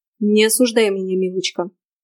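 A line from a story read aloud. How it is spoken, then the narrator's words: Contemptuous snort. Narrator (Russian): Шерион презрительно хмыкнул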